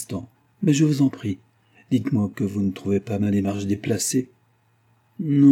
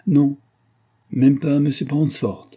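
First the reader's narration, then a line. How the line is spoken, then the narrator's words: Cheerful widow replying. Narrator (French): répondit la veuve gaiement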